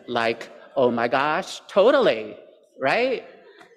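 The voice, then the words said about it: Valley Girl accent. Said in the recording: “a Valley Girl accent”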